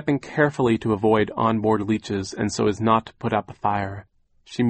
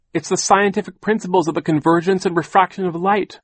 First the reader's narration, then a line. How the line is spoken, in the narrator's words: Violet cried, wiping her eyes